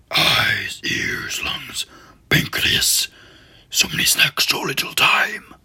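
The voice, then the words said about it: Strained monster character voice. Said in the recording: “That really, like, destroys your voice, the Venom impersonation.”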